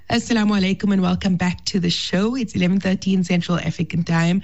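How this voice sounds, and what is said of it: Weak voice recovering from illness. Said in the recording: “I am feeling a bit better. As you can hear, my voice is coming back slowly but surely”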